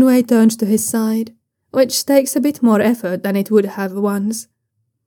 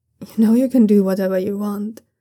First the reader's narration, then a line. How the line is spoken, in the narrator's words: Daoyunlan mumbles sleepily